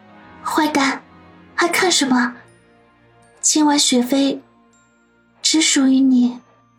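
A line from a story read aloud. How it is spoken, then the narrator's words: Dreamy, seductive voice. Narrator (Chinese): 林雪飞 声音迷迷的说道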